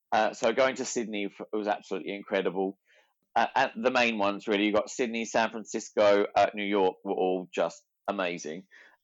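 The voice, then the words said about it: Weird Australian-influenced accent. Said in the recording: “this weird accent, because I travelled with Australians for years”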